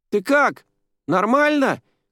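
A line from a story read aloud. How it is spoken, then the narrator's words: Shouted from below. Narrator (Russian): крикнула Джуди снизу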